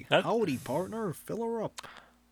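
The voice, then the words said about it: Put-on exaggerated American accent. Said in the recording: “My American accent is like... that's my American accent.”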